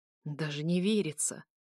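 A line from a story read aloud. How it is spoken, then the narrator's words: Hollow, broken voice. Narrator (Russian): говорит Паша глухим, надломленным голосом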